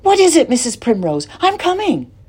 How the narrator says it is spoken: a voice cried out

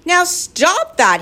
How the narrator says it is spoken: cried

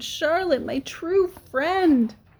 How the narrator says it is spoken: he moaned

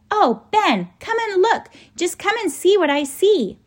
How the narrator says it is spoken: Lindy turned and cried out

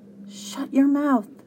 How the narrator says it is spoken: she murmured

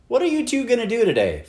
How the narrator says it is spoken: Flora's mother shouted

